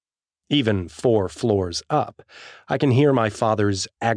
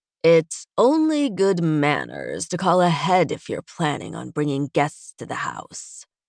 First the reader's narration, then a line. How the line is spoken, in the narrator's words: General Jacoby drawls